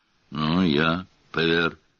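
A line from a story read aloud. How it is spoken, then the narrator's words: Gruff mutter. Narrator (Russian): буркнул Громила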